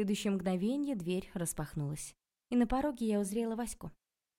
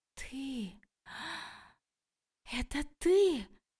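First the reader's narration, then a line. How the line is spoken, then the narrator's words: Shocked, furious gasp. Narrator (Russian): потрясенно выдохнула Окладникова, с яростью глядя на меня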